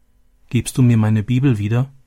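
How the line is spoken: Plain. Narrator (German): fragte sie

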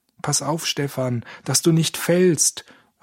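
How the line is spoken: Calling out. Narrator (German): rief Georg

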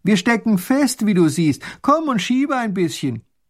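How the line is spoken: Little grand duke calling. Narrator (German): der kleine Großherzog ruft

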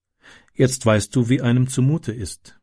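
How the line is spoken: Calm. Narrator (German): sagte ruhig

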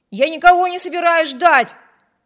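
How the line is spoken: Male shout. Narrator (Russian): крикнул Виберт

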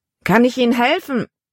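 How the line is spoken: Calling down from above. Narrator (German): Von der Reling aus rief er herunter

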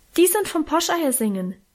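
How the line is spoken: Helpful call. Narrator (German): rief ich hilfsbereit

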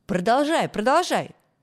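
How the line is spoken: Group shouting. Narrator (Russian): закричали ребята

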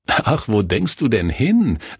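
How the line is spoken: Laughing. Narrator (German): lachte Kurt

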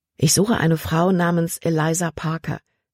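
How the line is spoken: Plain. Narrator (German): sagte Caleb

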